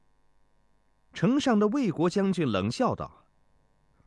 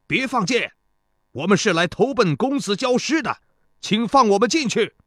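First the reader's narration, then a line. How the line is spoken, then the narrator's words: General shouting loudly upward. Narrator (Chinese): 一个立在马车上的齐国将军高声对城上喊道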